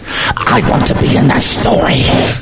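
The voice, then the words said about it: Echoey demonic possessed-child voice. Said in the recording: “Do the voice. ... With the echo. ... when he gets angry, he sounds like he's in The Exorcist.”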